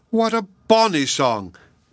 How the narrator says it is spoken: cried the farmer's wife

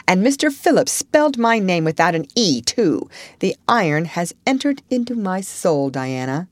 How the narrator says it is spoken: said Anne firmly

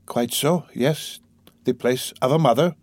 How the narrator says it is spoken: Sonya answered timidly and hurriedly

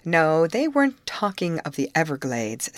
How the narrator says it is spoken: said Mrs

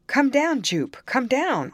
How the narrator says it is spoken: I cried

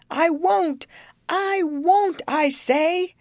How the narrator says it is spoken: he cried out as loud as he could

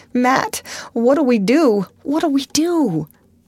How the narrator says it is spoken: her body shook with desperate sobs

